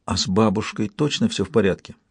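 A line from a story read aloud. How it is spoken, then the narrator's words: Quiet question. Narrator (Russian): Сельден тихо спросил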